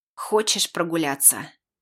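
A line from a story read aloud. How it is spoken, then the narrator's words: Strained wheeze. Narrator (Russian): Я с трудом прохрипел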